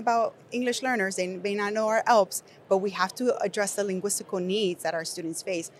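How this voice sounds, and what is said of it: Nicaraguan Spanish accent in English. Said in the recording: “I'm an English learner, if you cannot tell from my accent, I was born in Nicaragua”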